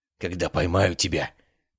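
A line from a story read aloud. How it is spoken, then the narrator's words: Growl. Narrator (Russian): прорычал Диккенс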